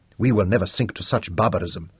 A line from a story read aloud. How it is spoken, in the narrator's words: Nelson Mandela said firmly